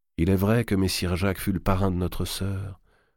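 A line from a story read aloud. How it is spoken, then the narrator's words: Murmured. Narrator (French): murmura Charles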